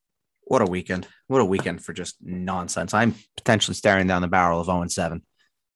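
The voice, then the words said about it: Nasal, congested voice. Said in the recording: “My voice sounds better than it did last week... I was very sick... it's more like nasally”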